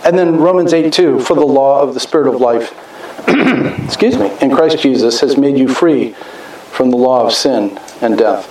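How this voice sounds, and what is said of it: Hoarse, fading voice. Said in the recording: “I'm losing my voice because I've been yelling, go Chiefs all week.”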